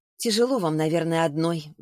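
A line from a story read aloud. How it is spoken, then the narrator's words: Sighing. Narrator (Russian): вздохнула Саша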